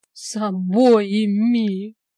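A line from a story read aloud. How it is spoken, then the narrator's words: Moaning. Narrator (Russian): простонала в ответ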